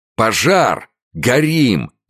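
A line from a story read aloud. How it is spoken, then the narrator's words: Confused panicked shout. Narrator (Russian): закричал он, хорошенько не понимая, что вокруг него творится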